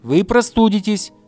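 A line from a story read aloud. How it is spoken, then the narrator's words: Hedgehog's shout. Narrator (Russian): закричал ежик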